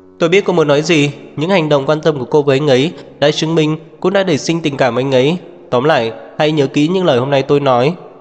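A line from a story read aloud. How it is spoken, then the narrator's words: Laughing loudly. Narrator (Vietnamese): Phạm Khiết Phàm cười lớn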